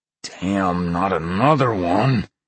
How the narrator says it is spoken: Chad growled

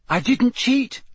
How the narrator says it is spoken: said Harry sharply

